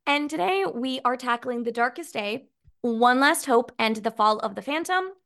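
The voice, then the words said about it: Slightly scratchy, raspy voice. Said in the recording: “my voice gets a little scratchy... I'm getting over a cold... my voice still gets a little raspy”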